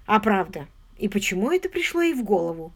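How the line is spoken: Plain. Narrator (Russian): спросил он

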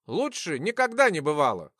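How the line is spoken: Wry grunt. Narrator (Russian): хмыкнул

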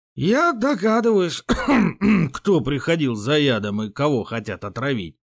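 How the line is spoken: Hoarse, aged nobleman. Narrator (Russian): сиплым голосом выдавил враз постаревший боярин

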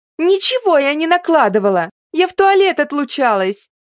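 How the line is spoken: Hysterical shriek. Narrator (Russian): Истерично взвизгнула Элизабет

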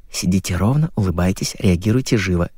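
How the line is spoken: Whispered. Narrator (Russian): шепнули

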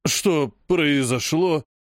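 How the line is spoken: Confused, slightly anxious priest. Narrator (Russian): Растерянно и немного тревожно спросил жрец

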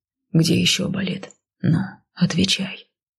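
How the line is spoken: Whisper close to ear. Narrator (Russian): Шепнул он над самым моим ухом

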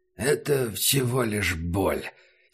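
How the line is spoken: Hoarse voice. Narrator (Russian): сказал Убер хрипло

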